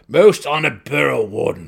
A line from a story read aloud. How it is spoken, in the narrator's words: the Swift Nebblin King said sternly